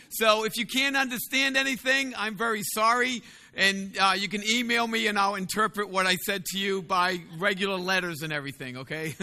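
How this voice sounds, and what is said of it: Strong Boston accent. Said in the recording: “I do have a very funny accent, okay? That accent is Bostonian, and I actually grew up in the city, which makes it worse”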